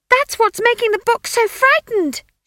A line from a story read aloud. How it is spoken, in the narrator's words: she shrieked in his ear